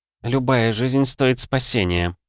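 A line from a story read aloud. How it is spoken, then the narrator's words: Through gritted teeth. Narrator (Russian): процедила сквозь зубы Аска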